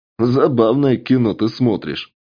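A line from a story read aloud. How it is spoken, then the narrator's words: Chuckling. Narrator (Russian): хохотнул поляк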